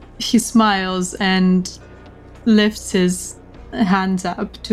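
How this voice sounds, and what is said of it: Usual voice. Nothing is said of it.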